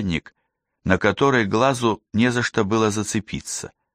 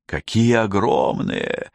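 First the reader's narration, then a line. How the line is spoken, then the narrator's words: Whisper. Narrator (Russian): прошептал Оскар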